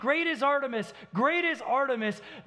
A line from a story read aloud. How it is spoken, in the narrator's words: people gathering a strip mall at 32nd and Thunderbird screaming